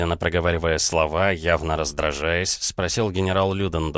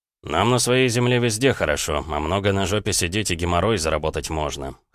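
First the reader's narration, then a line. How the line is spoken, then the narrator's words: Scoffing grunt. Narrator (Russian): хмыкнул Протопопов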